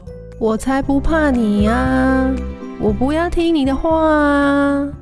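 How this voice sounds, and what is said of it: Cheeky, mocking child's voice. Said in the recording (Chinese): “他用嬉皮笑脸的声音说”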